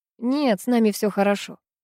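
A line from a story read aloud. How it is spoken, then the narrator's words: Dry. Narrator (Russian): сухо сказал Никита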